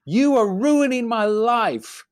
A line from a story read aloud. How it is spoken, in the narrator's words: a child who was screaming